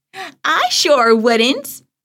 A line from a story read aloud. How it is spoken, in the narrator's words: Grandma Bee laughed as she passed by